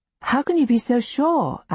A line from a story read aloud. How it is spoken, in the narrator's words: I exclaim